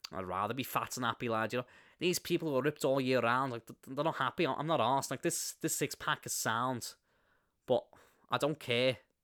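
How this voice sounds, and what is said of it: Paddy Pimblett impression, Liverpool Scouse accent. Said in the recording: “Liverpool, Scouser. Yeah, my Liverpool accent is normally a lot better than that”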